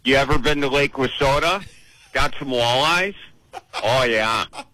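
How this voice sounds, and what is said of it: Put-on Wisconsin accent. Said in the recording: “that wonderful Wisconsin accent”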